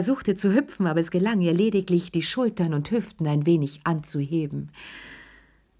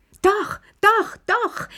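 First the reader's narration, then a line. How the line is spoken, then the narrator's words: Shouted. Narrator (German): schrie Lilly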